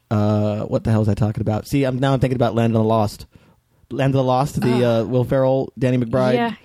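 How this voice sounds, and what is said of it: Hoarse, worn-out voice. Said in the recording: “My voice is totally shot.”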